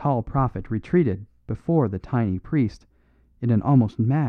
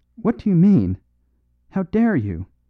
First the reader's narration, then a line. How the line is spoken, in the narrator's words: he cried repeatedly